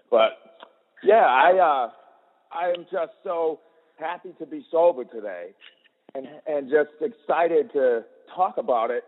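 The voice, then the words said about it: Boston accent. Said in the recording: “I'm from Boston. I grew up in Boston. ... I do have the accent”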